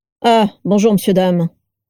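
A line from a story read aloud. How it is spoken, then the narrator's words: Gruff, gravelly growl. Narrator (French): grogna avec une voix rocailleuse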